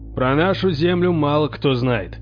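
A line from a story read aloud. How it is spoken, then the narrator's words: Booming. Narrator (Russian): прогремел Торвальд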